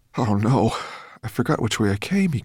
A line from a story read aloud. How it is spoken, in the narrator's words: he groaned